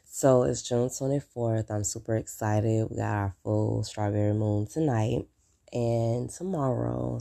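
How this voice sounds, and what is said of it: Rough, unwell-sounding voice. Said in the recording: “my voice sounds like crap ... I'm under the weather”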